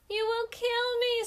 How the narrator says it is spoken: screamed the sun

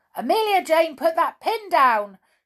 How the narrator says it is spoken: shouted the teddy bear in fright

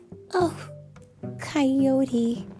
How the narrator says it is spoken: Lulu said sadly

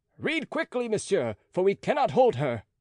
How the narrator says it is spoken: they called out

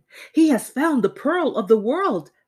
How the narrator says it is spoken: they cried

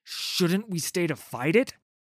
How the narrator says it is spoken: Sigvar gasped

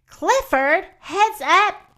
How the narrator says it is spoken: yelled Cleo

